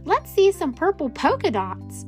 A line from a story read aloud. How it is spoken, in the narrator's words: One yelled out